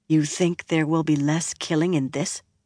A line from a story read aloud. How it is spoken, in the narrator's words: Moiraine muttered